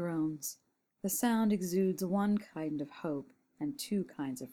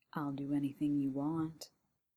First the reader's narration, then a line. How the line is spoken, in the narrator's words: says John, his voice dropping to a suggestive moan